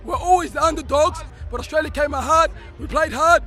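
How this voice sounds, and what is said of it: Hoarse, worn-out voice. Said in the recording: “I lost my voice against Tunisia. I lost my voice again against Denmark.”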